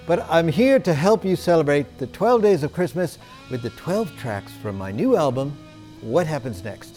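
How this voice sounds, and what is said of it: Strange, hard-to-place accent. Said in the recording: “this strange accent that you can't quite figure out.”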